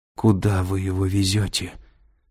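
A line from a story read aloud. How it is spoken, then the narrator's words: Weakening voice. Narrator (Russian): слабеющим голосом спросила Кэтрин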